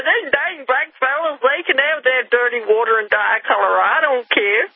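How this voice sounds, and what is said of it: Put-on Southern accent. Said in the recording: “I'm putting on a southern accent”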